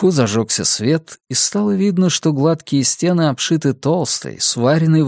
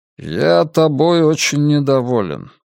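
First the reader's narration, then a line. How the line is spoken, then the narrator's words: Grim, in English. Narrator (Russian): мрачно сказал человек по-английски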